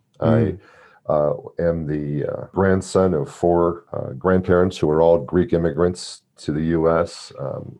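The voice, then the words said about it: American accent. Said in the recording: “I'm an American, you can tell by my voice”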